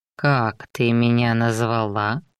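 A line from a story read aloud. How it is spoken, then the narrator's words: Insinuating question. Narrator (Russian): вкрадчиво спросил он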